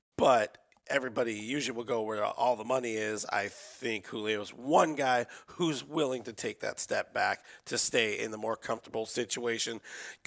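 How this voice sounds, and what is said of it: Hoarse, blown-out voice. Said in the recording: “People loving the voice... My voice is very blown. Phlegm leads to hacking up a lung”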